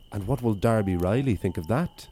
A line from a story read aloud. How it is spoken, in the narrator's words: asked